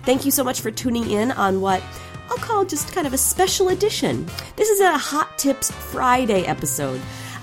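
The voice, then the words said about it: Sick, rough-sounding voice. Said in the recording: “As you may be able to tell from my voice, I am actually a little bit sick still ... the sexy sick instead of just the annoying one”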